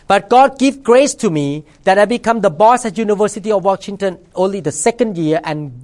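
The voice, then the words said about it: Thai-accented English. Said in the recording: “a foreigner here, speaking with accent, come from Thailand”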